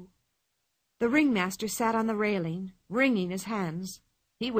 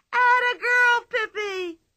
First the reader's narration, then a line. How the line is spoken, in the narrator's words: shrieked Tommy and Anika, so loudly that all the people at the circus heard it